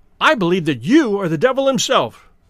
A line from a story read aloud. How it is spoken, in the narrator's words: he cried